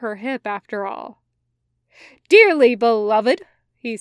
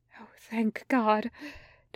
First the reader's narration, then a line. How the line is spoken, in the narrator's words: Doyle mumbles faintly, looking weak-kneed